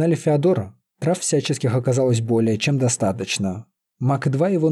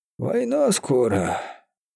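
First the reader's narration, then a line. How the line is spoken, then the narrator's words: Gloomy, dejected. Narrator (Russian): уныло произнес Феодор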